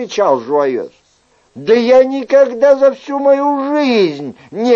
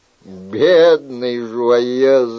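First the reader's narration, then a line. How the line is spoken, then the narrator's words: King laughing. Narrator (Russian): рассмеялся король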